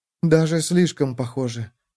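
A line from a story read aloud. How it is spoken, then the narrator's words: Whispered. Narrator (Russian): прошептала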